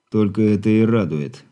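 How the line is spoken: Through clenched teeth. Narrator (Russian): процедил Игорь

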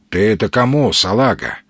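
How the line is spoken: Gloomy question. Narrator (Russian): мрачно спросил турманец

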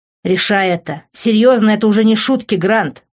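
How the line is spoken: Angry. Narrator (Russian): зло говорил он ему

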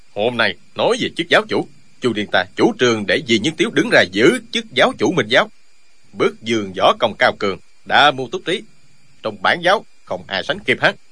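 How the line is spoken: Stubborn reckless loud shout. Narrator (Vietnamese): Y nổi tính gàn, chẳng còn biết phải trái gì nữa, quát to

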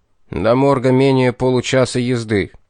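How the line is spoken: General's irritated reply. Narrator (Russian): раздраженно ответил генерал

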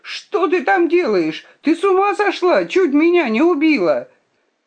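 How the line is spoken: Shouting from below. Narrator (Russian): снизу закричал

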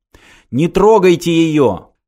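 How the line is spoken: Shout again. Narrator (Russian): снова крикнул Мартин

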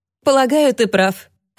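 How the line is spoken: Laughing. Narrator (Russian): рассмеялась Люси

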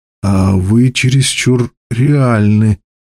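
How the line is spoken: Hoarse. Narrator (Russian): прохрипел наконец я

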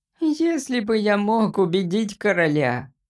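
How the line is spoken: Sorrowful squeak. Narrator (Russian): пропищал Джимпер горестно с мрачным выражением лица

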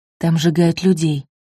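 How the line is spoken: Prisoner's quiet addition. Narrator (Russian): тихо добавила та же заключенная

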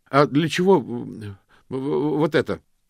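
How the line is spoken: Hurried interruption. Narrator (Russian): торопливо перебил мокрец

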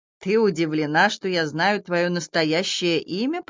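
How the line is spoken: Creaky rasp. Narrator (Russian): проскрипело существо

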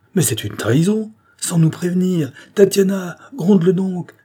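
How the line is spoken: Exclaiming. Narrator (French): s'écria Souratine

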